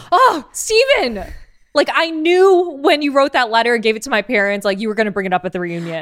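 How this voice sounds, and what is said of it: Impression of Monica, exasperated. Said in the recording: “That was a really good impression of Monica because that's exactly what she sounded like.”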